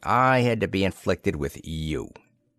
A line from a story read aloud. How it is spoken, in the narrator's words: he growled